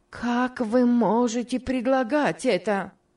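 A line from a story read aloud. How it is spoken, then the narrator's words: Exclaimed. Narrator (Russian): воскликнула Мари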